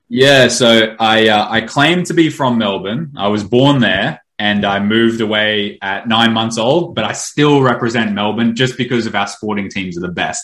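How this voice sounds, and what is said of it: Australian accent. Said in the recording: “don't be fooled by ... accent. I think he's originally from Melbourne”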